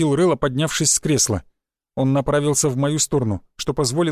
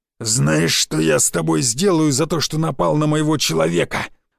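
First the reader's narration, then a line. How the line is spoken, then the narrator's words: Growled. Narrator (Russian): прорычал он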